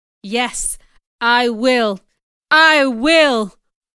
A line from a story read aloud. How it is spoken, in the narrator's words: almost shouted